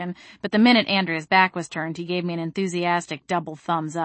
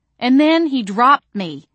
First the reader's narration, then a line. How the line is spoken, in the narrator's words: cried, burying my face in my hands